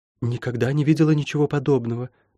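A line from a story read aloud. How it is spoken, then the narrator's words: Whisper. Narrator (Russian): прошептала Лайон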